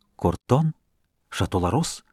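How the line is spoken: Whispered in ear. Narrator (Russian): лакей шептал каждому из обедающих на ухо

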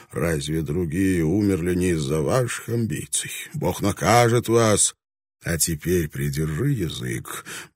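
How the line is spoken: Soft but firm. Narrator (Russian): Блэкторн произнес это мягко, но решительно

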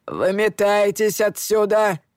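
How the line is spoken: Barking. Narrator (Russian): рявкнул бармен

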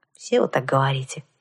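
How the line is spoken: Sigh. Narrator (Russian): вздохнула я

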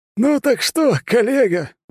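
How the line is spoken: Exclaiming after tears. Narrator (Russian): воскликнул Людвиг, вытерев слезы

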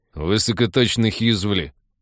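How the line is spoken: Grumbling. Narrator (Russian): ворчал Михалыч

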